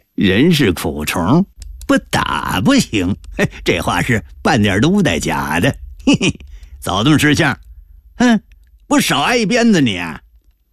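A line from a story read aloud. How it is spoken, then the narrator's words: Grinning. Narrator (Chinese): 李德全咧嘴一笑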